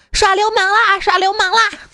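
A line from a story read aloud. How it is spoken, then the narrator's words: Shouting. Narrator (Chinese): 喊道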